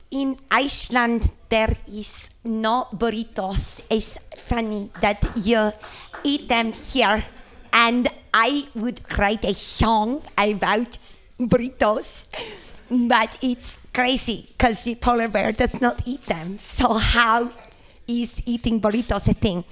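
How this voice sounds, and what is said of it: Bad put-on Icelandic accent. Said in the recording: “a really bad accent. So that was my Icelandic Bjork accent.”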